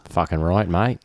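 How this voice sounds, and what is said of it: Convincing put-on Australian accent. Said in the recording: “Can you do an Australian accent? ... all of those other accents were dead on.”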